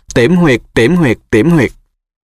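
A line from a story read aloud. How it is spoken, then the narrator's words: Repeated shout. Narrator (Vietnamese): Neville hét lên một lần nữa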